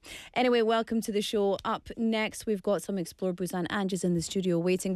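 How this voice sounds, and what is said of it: Sore, rough throaty voice. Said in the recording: “forgiving me for my bad throat today. You can hear my voice is a little sore.”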